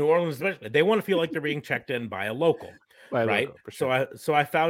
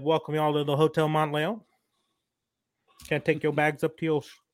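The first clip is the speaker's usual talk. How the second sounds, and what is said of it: Put-on Southern drawl. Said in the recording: “I put on a little bit of a Southern drawl”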